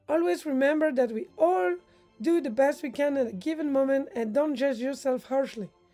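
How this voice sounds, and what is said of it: French accent. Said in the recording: “Swiss nomads with a French accent”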